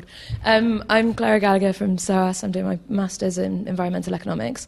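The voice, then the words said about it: Congested, stuffy-nosed voice. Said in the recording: “I have a cold.”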